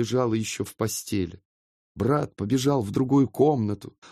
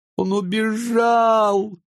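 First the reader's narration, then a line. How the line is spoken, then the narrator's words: Tearful. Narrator (Russian): говорила она сквозь слезы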